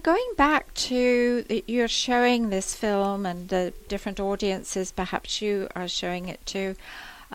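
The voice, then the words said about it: English accent. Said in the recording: “you probably know from my accent, I'm from England.”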